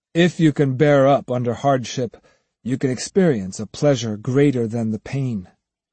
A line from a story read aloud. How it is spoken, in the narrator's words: Musashi said solemnly